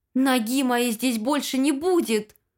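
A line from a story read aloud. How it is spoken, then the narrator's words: Shout. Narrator (Russian): закричала она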